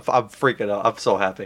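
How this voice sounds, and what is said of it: Excited yelling. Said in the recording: “I'm yelling”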